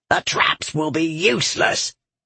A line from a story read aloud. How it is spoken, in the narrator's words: the demon dwarf growled